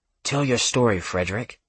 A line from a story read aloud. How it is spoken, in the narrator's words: heard a whisper